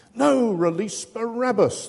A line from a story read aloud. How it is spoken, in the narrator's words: the mob howls, doubtless to the dismay of an increasingly cornered and desperate Pilate